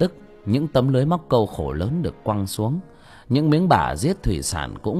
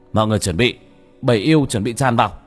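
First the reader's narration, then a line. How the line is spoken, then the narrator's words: Shouting. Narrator (Vietnamese): Bác cổ hét lên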